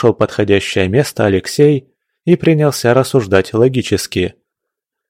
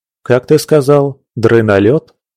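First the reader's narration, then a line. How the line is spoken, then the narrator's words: Laughing. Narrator (Russian): рассмеялся Алексей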